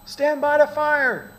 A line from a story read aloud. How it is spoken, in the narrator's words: screamed the colonel